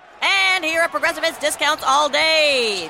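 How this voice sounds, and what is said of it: Excited play-by-play announcer voice. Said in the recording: “my impression of a play-by-play announcer who loves to save money”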